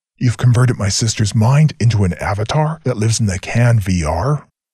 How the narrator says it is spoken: Rannoch spat out in disgust

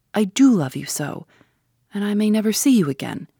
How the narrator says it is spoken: she cried

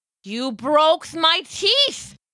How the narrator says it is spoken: howled, spitting venom

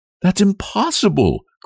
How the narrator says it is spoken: cried Nellie

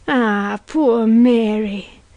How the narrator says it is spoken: she cried

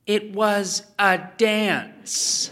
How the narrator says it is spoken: she told Ethan, pronouncing the word slowly and clearly, as if for the benefit of an imbecile

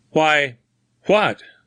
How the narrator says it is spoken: stammered Grimsby

